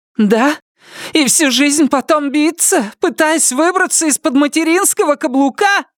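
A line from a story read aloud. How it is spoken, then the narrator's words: Furious, ugly shout. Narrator (Russian): Выкрикнула она яростным, некрасивым голосом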